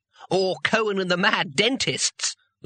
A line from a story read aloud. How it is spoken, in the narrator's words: laughed Two Flower